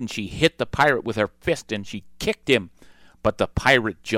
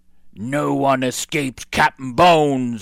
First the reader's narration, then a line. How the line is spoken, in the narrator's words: he roared